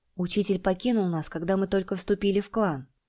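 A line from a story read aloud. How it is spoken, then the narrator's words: Quiet, defensive. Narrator (Russian): тихо оправдывался Чинь-Сянь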